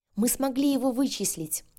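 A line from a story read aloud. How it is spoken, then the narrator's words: Joyful shout. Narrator (Russian): радостно выкрикнула Альбина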